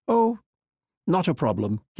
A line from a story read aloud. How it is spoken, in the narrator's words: Quichotte replied